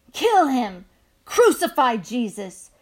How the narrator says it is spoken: shouted voices, hateful and loud

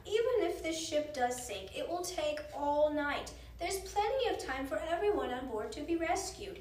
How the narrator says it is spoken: said one with a laugh

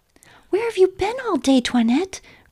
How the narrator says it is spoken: cried the children

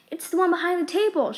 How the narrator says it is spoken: she cried

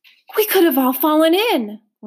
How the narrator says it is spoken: one woman gasped

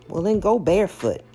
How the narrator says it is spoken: she snapped

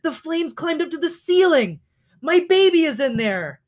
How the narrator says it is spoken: cried a mother hare

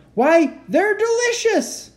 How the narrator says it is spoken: he jumped up yelling

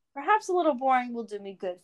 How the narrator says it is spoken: Faramir said quietly

